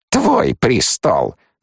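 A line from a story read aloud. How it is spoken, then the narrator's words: Snorting. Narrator (Russian): фыркнула она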